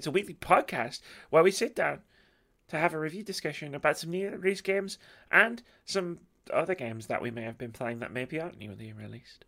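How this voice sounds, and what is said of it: Hoarse, strained voice. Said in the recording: “I am losing my voice”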